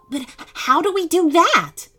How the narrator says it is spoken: asked Boo Bear excitedly

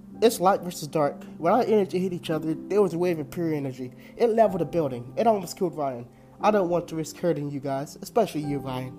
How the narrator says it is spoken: I said

